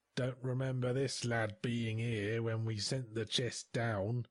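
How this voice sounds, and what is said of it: Gruff voice, strong sailor accent. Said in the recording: “said a gruff voice in a strong sailor accent.”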